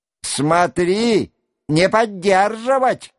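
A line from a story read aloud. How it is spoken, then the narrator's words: Shouting. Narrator (Russian): кричал другой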